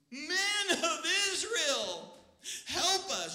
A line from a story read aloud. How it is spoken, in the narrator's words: This whole crowd shouting